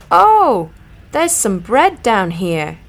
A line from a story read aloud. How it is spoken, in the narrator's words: I cried